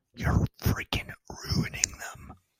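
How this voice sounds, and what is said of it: Joe Biden whisper impression. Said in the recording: “my weird voice. This is the Joe Biden whisper.”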